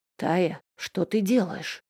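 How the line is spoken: Halting whisper. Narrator (Russian): сбивчиво зашептал он

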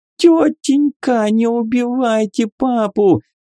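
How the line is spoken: Tearful scream. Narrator (Russian): Со слезами закричала она

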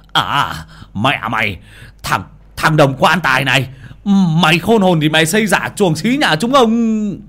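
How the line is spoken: Aggressive hiss. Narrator (Vietnamese): hung hăng rít lên

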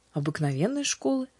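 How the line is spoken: Calm reply. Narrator (Russian): спокойно ответила Аня

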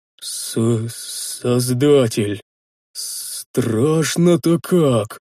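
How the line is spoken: Hoarse, strained. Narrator (Russian): хрипло выдавил из себя Рикар

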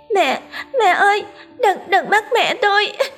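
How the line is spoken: Child's sobbing plea. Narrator (Vietnamese): Nhìn thấy mẹ bị trói, nó òa khóc nức nở van xin

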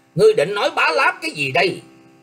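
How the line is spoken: Furious shout. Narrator (Vietnamese): Nghiêm Lăng Dật hết sức giận dữ quát lên

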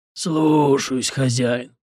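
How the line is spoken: Creaky zombie voice. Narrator (Russian): проскрипел в ответ зомби

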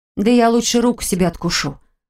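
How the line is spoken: Fearful, through clenched teeth. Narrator (Russian): Процедила я больше от страха, чем от желания его уязвить

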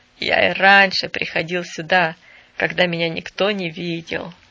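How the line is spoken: Plain. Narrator (Russian): сказал он

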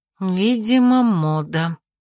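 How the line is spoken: Muttered aloud. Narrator (Russian): пробормотала уже вслух

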